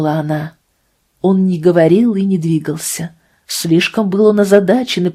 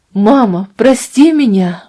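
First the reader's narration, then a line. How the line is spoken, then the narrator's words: Exclaiming. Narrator (Russian): воскликнул он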